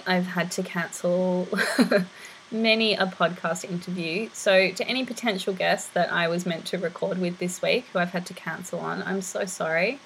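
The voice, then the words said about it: Raspy, hoarse voice. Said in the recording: “I lost my voice. It's been very raspy. ... I've managed to get my voice to a stage that is bearable to listen to”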